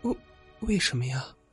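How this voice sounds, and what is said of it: Quiet, timid whisper. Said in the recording (Chinese): “小声问道”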